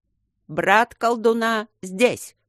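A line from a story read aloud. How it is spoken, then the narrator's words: Loud speech. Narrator (Russian): сказал он громко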